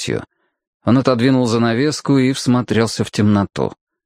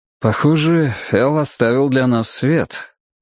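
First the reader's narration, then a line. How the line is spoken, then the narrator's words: Sighing. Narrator (Russian): Вздохнув, он сказал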